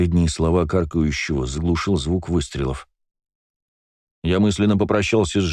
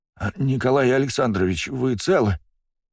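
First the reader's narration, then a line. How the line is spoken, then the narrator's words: Trembling voice. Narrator (Russian): дрожащим голосом произнес он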